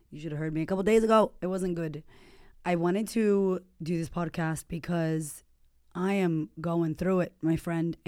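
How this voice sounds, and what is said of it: Strained, recovering voice. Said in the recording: “my voice is going. Actually, it's coming back.”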